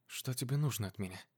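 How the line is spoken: Barely audible whisper. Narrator (Russian): Еле слышно прошептала Полина

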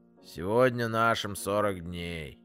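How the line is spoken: Gloomy voice. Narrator (Russian): мрачным голосом Вовка произнес

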